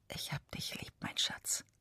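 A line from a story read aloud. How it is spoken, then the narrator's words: Whispered. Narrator (German): Er flüstert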